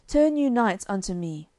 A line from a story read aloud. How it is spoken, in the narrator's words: cried Sir Launcelot aloud